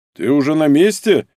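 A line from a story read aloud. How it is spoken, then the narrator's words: Booming drone. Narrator (Russian): прогудел Дубовой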